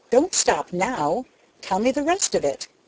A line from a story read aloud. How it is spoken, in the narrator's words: he commanded sharply